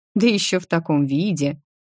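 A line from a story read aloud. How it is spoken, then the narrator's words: Grumbling. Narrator (Russian): проворчала я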